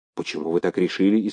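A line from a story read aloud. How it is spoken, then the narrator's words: Frightened question. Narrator (Russian): испуганно спросил Полынов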